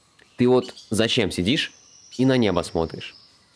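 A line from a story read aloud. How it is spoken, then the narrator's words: Calm. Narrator (Russian): Тот спокойно ответил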